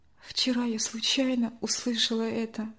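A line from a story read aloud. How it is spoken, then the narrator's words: Quiet reply. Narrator (Russian): тихо ответила Надя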